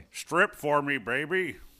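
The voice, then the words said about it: Imitates another person's voice. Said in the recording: “that was my impression of Woody Harrelson's impression of Larry Flint”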